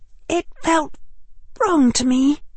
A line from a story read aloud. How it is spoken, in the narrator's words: Hermione said, her voice even quieter than his